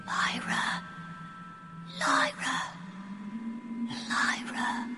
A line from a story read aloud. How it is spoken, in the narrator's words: the little boy, hopeful and frightened, whispering over and over